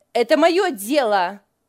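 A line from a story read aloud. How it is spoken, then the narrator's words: Angry retort. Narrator (Russian): сердито бросила Лиля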